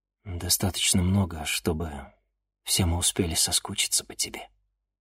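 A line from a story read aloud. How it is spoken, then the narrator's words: Quiet reply. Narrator (Russian): тихо ответил Денис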